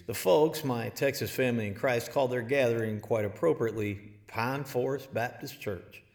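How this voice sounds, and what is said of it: Put-on East Texas accent. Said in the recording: “I use the accent not for affectation, but with deep affection.”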